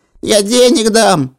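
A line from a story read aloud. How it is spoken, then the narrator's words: Panicked squeal. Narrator (Russian): запищал, когда понял, что дела совсем плохи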